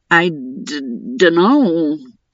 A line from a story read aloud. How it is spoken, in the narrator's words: Theo stammered, entirely confused